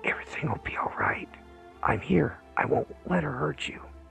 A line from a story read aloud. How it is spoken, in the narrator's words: He leaned close and whispered